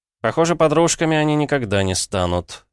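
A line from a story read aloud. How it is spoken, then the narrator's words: Snorting. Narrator (Russian): хмыкнул я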